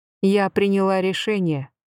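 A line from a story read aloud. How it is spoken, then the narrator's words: Plain. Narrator (Russian): сказала я наконец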